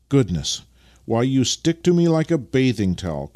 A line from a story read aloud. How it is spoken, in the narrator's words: cried Vasily